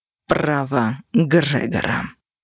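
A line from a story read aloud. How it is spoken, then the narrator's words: Icy voice. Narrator (Russian): ледяным голосом ответил Кости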